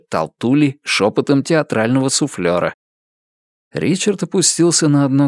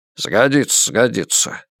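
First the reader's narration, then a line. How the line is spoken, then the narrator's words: Old man grumbling. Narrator (Russian): проворчал старик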